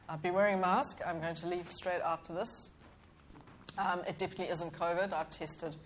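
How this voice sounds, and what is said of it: Congested voice with a cold. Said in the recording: “As you can hear, I have a cold.”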